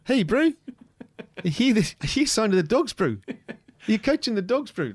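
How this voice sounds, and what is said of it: Put-on New Zealand accent. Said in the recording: “I can do a random New Zealand, sure, accent”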